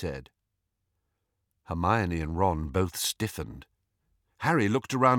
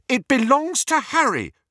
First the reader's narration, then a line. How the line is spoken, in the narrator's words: said Hermione hotly